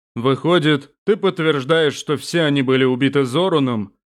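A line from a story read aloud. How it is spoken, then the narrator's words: Surprisingly resonant deep bass. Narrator (Russian): Неожиданно звучным, глубоким басом спросил тот, кого принц называл Нурзани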